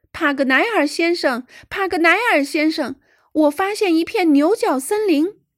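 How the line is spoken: Running back, shouting loudly. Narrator (Chinese): 罗伯特突然飞跑回来，他大声叫道

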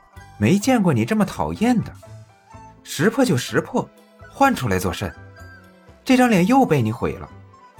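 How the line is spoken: Sheepish muttering. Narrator (Chinese): 许二讪笑，嘀咕道

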